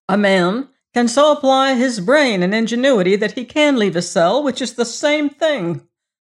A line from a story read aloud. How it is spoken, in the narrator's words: snapped the thinking machine